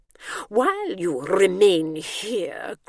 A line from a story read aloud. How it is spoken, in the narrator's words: growled the warden